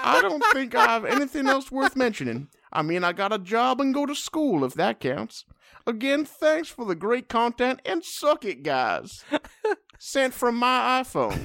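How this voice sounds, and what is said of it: Exaggerated Southern accent, Foghorn Leghorn. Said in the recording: “It's starting to sound like Foghorn Leghorn. ... We've moved on to offensive Southern accents.”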